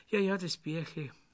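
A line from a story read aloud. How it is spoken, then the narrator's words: Sighing. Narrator (German): seufzte Fifi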